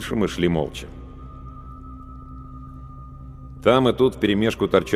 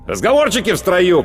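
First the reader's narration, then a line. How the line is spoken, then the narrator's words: Shout. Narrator (Russian): крикнул сержант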